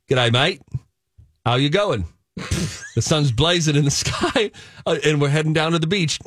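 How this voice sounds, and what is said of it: Put-on Australian accent. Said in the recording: “sounds like I have an Australian accent”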